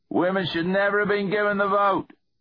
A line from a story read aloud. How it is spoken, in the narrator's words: shouted a man